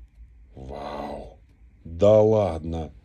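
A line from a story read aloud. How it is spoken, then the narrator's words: Strained, forced words. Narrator (Russian): единственное, что он мог из себя выдавить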